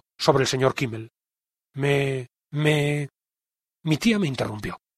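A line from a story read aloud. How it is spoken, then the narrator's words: Stuttering. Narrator (Spanish): dije tartamudeando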